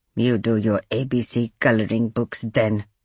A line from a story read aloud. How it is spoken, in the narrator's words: Arvinda muttered